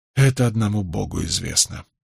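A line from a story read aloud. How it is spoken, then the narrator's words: Sighing. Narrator (Russian): вздохнул я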